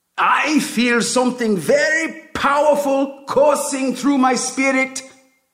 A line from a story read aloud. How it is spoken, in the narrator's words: the prophet yells